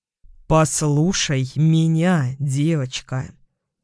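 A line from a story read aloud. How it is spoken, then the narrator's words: Slow, clipped, deliberate. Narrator (Russian): сказал он медленно, чеканя каждое слово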